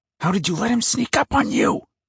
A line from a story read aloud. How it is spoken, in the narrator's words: I hissed at Cutter